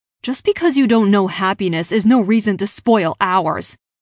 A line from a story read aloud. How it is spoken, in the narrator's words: Clayton told Priscilla irritably